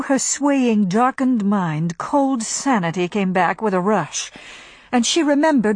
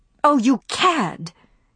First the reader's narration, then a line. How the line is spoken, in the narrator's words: she cried